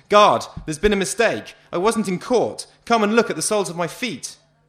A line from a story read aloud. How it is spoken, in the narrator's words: I did shout at the top of my voice